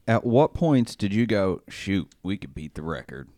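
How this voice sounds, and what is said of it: Puts on a random accent. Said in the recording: “I was just picking a random accent.”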